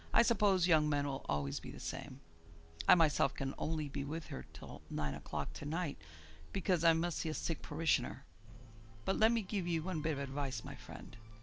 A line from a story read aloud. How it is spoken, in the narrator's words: said the priest with half a sigh